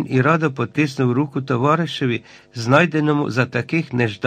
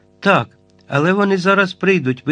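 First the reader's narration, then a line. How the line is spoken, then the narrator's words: Exclaimed. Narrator (Ukrainian): вигукнув Айртон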